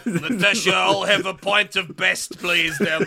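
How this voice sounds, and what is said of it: Ray Winstone's Dreykov, Russian-Cockney mix. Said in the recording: “Ray Winston sounds like St. Petersburg by way of Peckham ... my Dracov impression ... He's brilliantly all over the place.”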